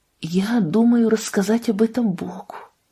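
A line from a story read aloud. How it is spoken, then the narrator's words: Tender whisper. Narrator (Russian): прошептала она своей дорогой девочке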